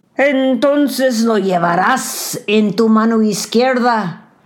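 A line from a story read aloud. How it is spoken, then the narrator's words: Devil bellowing. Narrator (Spanish): bramó el diablo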